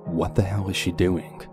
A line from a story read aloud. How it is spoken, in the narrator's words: I mumbled to myself in complete shock